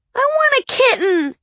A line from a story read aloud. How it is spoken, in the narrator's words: Marin had screeched